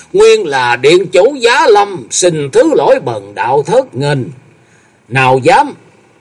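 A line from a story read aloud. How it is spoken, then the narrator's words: Loud sudden laughter. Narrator (Vietnamese): Thông Thiên giáo chủ chợt cười to nói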